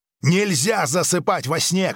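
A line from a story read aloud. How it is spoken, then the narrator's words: Shouting. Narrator (Russian): крикнул Грик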